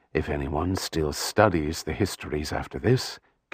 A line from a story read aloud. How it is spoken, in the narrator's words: Kyria mumbled